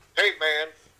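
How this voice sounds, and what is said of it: North Carolina accent impression. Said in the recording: “his North Carolina accent”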